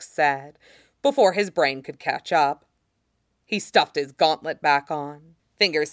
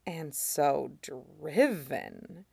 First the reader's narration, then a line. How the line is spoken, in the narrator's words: Voss said under his breath